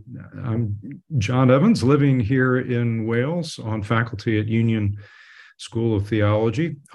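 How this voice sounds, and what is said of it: American accent. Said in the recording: “you can tell by my accent that I'm not a native Brit... I'm very much an American”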